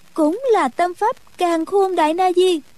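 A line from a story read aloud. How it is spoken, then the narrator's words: Involuntary exclamation. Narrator (Vietnamese): nàng bất giác buộc miệng kêu lên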